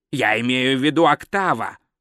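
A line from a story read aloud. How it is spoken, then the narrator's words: Cold explanation. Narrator (Russian): холодно пояснил Гальдер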